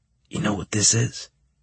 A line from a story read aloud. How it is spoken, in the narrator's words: he asked me in a whisper